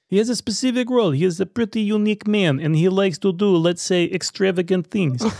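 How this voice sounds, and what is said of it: Put-on Russian accent. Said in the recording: “feel free to do your best accent on this one ... My best Russian accent?”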